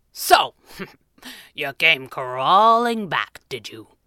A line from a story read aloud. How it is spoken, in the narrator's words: chuckled